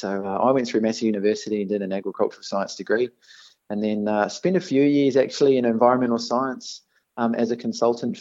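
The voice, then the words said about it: New Zealand accent. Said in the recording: “as you can tell from my accent, I am a Kiwi born.”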